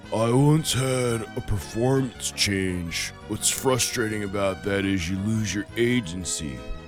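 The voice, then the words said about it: Poor Keanu Reeves impression. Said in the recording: “my poor impression of Keanu ... Reeves”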